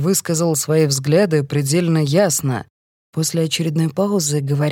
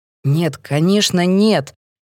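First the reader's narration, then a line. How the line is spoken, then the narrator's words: Angry. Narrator (Russian): Сердито отвечает Мэтт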